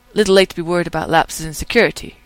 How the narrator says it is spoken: Rodney says sharply

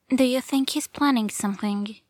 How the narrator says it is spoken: she asks

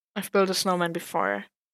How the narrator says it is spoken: Mud sighed and muttered

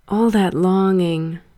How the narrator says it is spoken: he breathed

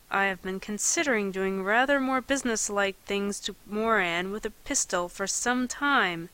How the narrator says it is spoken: he said through his teeth

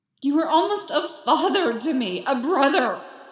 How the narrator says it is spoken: Anakin screamed

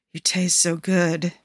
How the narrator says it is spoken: mumbles

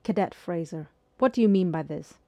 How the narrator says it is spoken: Corporal Delorme said in a cold voice

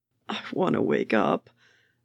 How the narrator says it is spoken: Bucky moaned

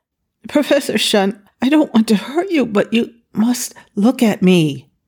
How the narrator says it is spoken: He gasped in sympathy, apologized, and said

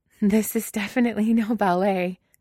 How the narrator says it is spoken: Carly says, laughing

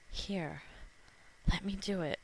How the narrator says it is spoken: he whispered huskily

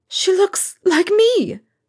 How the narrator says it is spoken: says shakily

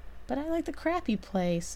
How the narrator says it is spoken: Emmett whines

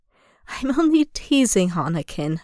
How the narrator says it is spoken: Obi-Wan chuckles warmly

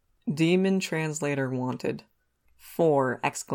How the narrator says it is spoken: he says

